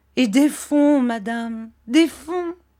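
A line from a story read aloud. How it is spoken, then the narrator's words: Gloomy exclamation. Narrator (French): s'écria monsieur Micawber d'un air sombre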